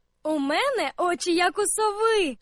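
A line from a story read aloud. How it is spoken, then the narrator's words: Laughing call from above. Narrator (Ukrainian): засміялася Аня з верхівки дерева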